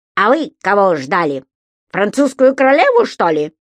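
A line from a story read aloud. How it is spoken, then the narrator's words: Angry grumbling. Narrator (Russian): сердито проворчал попугай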